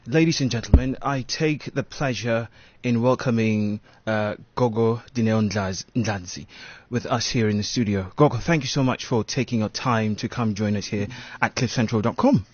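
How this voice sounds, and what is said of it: British-sounding accent. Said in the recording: “your accent... you sound so British”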